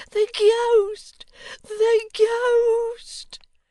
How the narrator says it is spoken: the horror-stricken clerk uttered a scream that pierced the air, and cried

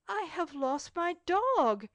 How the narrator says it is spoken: exclaimed he, so bitterly that everybody turned around and looked at him

